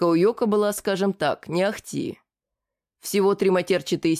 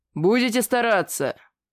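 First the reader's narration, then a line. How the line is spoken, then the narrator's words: Familiar growl. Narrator (Russian): Знакомо рыкнул он в конце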